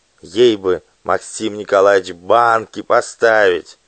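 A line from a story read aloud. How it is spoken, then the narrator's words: Undertone. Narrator (Russian): сказал вполголоса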